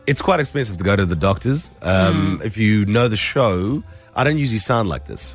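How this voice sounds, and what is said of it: Very deep voice from illness. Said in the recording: “my voice is very deep. It's very, very deep. It's because I'm sick.”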